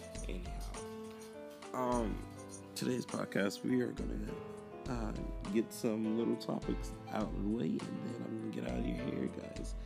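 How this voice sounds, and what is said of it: Sounds ill, rough voice. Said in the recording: “I'm sorry if I sound ill”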